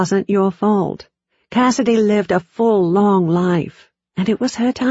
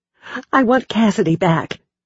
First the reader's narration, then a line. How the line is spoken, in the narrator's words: I said tightly